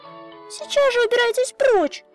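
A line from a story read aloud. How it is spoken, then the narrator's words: Shout. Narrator (Russian): прокричала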